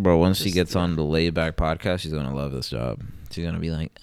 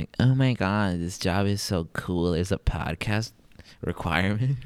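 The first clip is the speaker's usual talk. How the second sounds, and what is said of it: California girl voice. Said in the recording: “Why does she sound like a Cali girl?”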